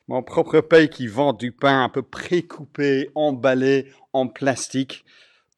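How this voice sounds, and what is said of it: Foreign accent in French. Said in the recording (French): “Si vous reconnaissez mon accent, vous allez savoir de quel pays il s'agit.”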